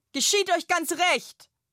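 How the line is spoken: Loud calling. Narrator (German): ruft die laute Lilly

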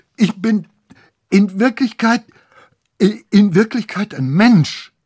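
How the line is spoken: Stammering. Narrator (German): stammelte Lorenz

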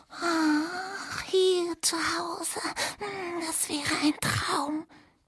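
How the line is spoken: Squeaked together. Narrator (German): piepsten

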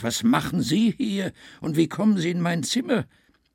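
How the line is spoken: Exclaimed. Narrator (German): rief Alex aus

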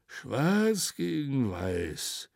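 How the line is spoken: Muttering. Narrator (German): murmelte

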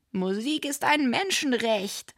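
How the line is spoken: Calling out. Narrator (German): rief

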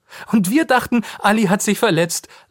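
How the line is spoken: Laughing. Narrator (German): lacht Lisa

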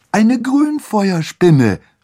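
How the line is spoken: Calling out. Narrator (German): rief Annabelle

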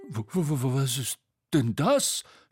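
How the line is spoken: Astonished stammering. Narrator (German): stammelte Bo verblüfft

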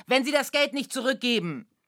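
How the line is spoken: Calling out. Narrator (German): rief er dem Sturkopf zu

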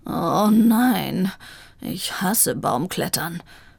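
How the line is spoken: Groan. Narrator (German): stöhnte Vivaldi

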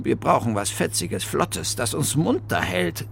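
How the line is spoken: Murmur. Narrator (German): murmelte Bertha

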